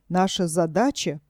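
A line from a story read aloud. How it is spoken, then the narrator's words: Whispering. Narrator (Russian): продолжал шепотом мистер Морко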